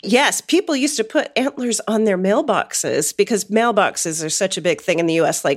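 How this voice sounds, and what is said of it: Usual voice. Nothing is said of it.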